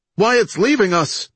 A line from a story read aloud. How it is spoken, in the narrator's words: Johnson cried